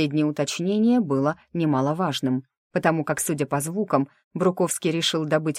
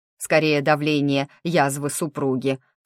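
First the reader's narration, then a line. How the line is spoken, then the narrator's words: Snorted. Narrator (Russian): фыркнул Мак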